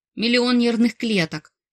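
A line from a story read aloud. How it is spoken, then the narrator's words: Blurted out. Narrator (Russian): наугад выпалила я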